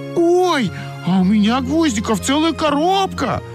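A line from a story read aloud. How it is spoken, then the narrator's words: Shouting. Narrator (Russian): закричала Ойка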